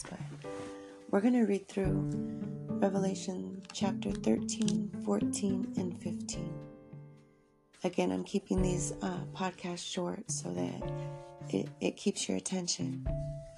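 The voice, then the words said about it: Tired-sounding voice. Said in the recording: “I'm super tired today. I'm sure you can hear it in my voice”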